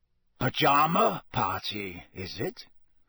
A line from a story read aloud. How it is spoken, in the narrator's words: he growled up the stairs